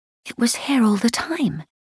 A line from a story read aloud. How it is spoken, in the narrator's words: Kitty whispered